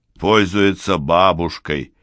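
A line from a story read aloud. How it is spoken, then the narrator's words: Grumbling. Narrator (Russian): ворчал Киёаки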